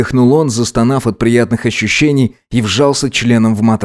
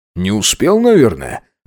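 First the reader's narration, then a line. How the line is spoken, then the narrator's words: Evasive snort. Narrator (Russian): хмыкнул Макс, понимая, что правда прозвучит жестоко и обидно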